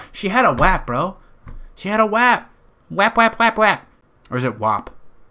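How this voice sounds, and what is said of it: Nasal Western New York accent. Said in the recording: “I call WAP because it's my nasally fucking Western New York accent, buddy. This is how we all talk from fucking Western New York.”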